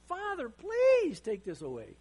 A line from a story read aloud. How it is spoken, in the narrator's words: He's pleading with God